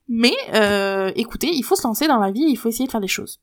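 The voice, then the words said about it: Congested, blocked-nose voice. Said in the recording (French): “j'ai le nez bouché”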